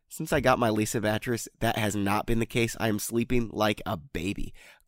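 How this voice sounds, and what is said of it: Sick, congested-sounding voice. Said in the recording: “y'all know I'm sick. You can probably hear it in my voice.”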